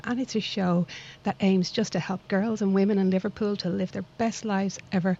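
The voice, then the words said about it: Dublin Irish accent. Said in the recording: “my little accent doesn't come from this lovely town in Liverpool, but I like to think it comes from an equally lovely town called Dublin across the water”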